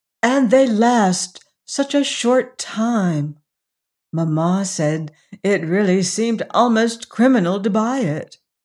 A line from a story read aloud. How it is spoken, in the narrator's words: sighed lovely Agatha